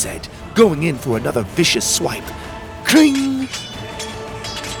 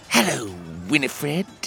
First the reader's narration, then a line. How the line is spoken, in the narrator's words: she said with a hiss